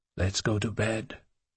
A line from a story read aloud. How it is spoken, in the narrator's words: he said softly